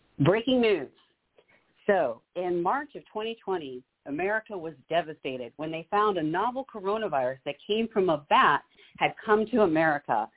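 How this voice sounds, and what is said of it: News reporter voice. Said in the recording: “I'll say it in like my news reporter ... you do your reporter voice.”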